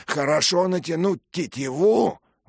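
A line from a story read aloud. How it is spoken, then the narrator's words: Exclaiming. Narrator (Russian): воскликнул Аплиард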